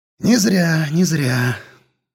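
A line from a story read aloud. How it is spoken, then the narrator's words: Thoughtful mutter. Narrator (Russian): задумчиво пробормотал тот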